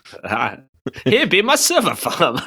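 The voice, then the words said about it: Put-on generic farmer accent. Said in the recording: “just generic discriminatory farmer accent you've got going there.”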